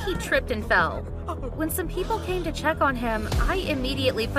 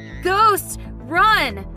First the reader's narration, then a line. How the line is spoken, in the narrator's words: My brother shouted in panic